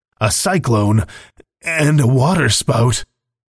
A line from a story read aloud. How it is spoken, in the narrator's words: muttered Eastwood, appalled